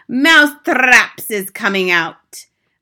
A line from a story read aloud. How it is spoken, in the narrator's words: She raised her voice louder than ever and shouted